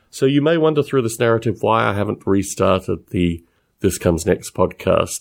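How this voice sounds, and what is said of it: Australian-esque accent. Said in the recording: “my accent ... some strange Australian-esque sounding dude”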